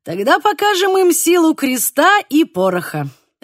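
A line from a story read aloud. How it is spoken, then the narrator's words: Laughing. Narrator (Russian): засмеялся капитан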